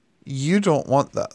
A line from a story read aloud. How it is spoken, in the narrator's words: said the demon